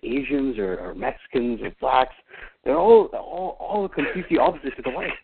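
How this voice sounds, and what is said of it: Put-on Pakistani-sounding accent. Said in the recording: “He sounds Pakistani now ... Your fucking accent keeps changing”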